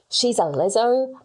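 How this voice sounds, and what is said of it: Bad put-on Australian accent. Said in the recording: “It's trying to do our accent ... That was a really bad accent ... That's a terrible accent ... It's such a bad accent ... I'm doing my accent of him doing our accent”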